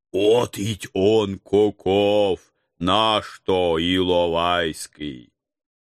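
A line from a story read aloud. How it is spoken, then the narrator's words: Condescending booming elder. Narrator (Russian): Покровительственно прогудел староста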